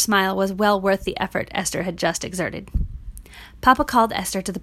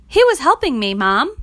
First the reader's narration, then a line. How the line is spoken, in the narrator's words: piped Esther